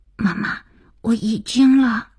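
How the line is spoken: Hurried, frightened, quiet. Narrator (Chinese): 听到了儿子急促惶恐的小声

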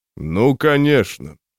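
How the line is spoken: Smirking snort. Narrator (Russian): хмыкнул

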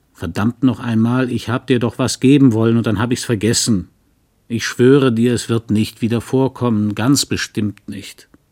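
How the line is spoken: Blustering rumble. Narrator (German): er polterte

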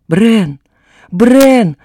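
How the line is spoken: Sudden desperate scream. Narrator (Russian): Вдруг отчаянно закричала Вилета

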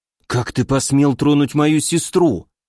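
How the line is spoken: Angry hiss. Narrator (Russian): прошипел

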